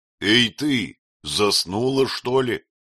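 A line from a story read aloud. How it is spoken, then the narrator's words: Rude shout. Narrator (Russian): грубо крикнул Шаваль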